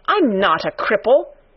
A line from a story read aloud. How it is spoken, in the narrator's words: cried out furiously